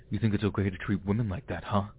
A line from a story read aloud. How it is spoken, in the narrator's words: He starts growling